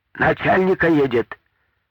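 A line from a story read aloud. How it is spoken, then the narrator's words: Shouted from horseback. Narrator (Russian): крикнул с лошади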